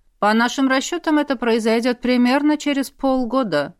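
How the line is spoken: Calm. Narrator (Russian): спокойно сказал брат

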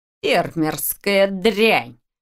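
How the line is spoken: Growl. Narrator (Russian): прорычал

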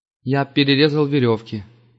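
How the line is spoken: Even voice. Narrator (Russian): ровным голосом сказал Иланд

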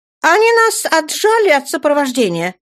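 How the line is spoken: Sharp. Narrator (Russian): резко проговорила Дженнифер

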